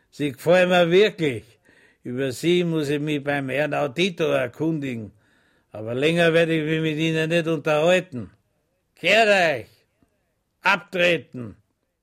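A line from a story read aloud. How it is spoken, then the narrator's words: Laughing. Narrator (German): lachte und sagte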